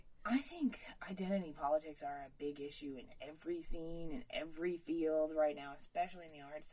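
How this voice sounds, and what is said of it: Appalachian accent. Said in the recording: “Appalachian ... that accent kind of breaks out”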